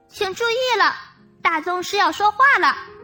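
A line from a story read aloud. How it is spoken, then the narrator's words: Loud. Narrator (Chinese): 小蜥蜴大声说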